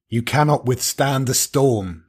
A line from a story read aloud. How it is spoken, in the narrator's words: said the devil